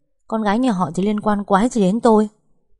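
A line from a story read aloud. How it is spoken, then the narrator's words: Raised angry voice. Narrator (Vietnamese): Vĩnh Hy cao giọng, thể hiện cơn giận đang đến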